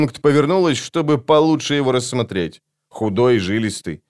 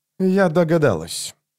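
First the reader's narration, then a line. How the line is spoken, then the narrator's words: Dry remark. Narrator (Russian): сухо заметила Лорн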